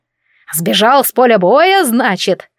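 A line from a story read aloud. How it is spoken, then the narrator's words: Snorting scoff. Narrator (Russian): хмыкнула Брунхильда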